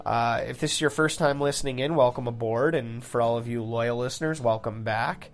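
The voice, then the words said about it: Congested, under-the-weather voice. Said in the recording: “bedroom voice. ... I've uh, caught some sort of a wicked sinus thing, so I do apologize for sounding a little bit under the weather.”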